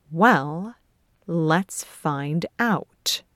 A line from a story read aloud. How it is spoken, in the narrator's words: Rupert says in an icy tone